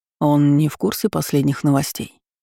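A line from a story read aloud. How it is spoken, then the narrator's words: Calm question. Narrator (Russian): спокойно поинтересовался мой мужчина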